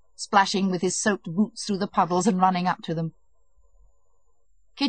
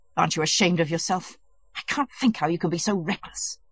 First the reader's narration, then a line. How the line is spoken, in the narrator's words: said angrily